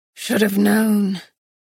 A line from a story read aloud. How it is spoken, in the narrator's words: said, his breath coming in shorter, faster pants